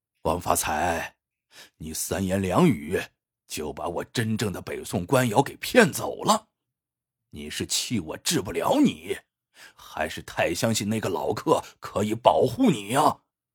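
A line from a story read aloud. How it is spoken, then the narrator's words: Heavy panting. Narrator (Chinese): 张文义喘着粗气说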